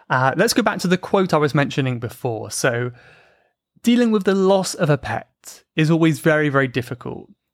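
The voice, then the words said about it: British accent. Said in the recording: “listening, and understanding the British accent”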